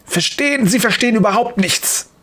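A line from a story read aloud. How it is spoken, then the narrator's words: Angry hiss. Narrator (German): faucht Dr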